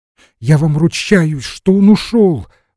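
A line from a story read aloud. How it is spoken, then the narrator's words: Exclamation. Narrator (Russian): воскликнула Глафира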